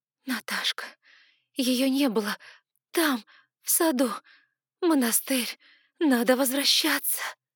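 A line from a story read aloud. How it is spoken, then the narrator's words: Hoarse, strained. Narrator (Russian): Голос сипел, и слова выходили с огромным трудом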